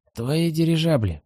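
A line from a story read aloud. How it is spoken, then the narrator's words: Grumbling. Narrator (Russian): проворчал слепой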